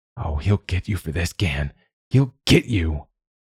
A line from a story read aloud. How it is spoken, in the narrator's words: Quoth tittered uneasily, whispered